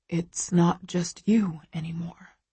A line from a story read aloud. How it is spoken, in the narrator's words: he whispers